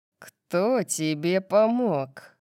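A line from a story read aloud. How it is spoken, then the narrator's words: Growled. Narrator (Russian): прорычал он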